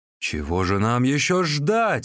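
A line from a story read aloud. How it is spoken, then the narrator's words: Angry exclamation. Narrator (Russian): воскликнул разгневанный Сунцзян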